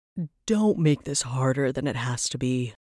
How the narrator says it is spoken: Varys sighed

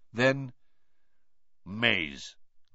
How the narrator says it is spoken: grunted Krum

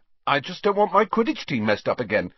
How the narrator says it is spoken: he said hastily

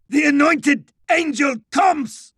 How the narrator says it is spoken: It shrieked, ecstatic

